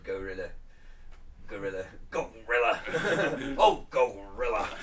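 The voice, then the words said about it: Impression of Jesse Ventura. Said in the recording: “My only impression of him I could do is him from the wrestling, when as his co-commentator was Gorilla Monsoon.”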